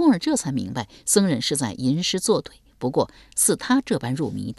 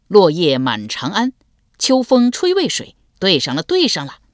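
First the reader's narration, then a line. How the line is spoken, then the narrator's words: Excited foolish delight. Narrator (Chinese): 那僧人甚是呆气，不但不恼怒，手舞足蹈地说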